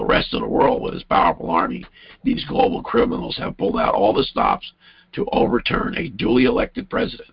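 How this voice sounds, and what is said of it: Strained, failing voice. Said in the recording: “before I lose my voice. I'm probably killing you here with my voice.”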